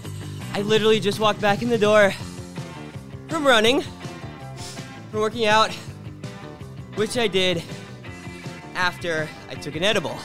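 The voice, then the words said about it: Slightly out of breath. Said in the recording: “why I sound a little out of breath,”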